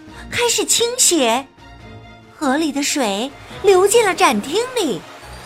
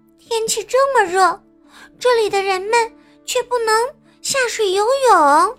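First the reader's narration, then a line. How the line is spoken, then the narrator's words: Little girl sighing. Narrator (Chinese): 小女孩叹了口气说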